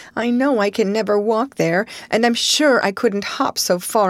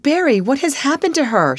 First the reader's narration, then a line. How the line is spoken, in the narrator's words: she gasped, more white and shaken than the self contained, sensible Marilla had been for many years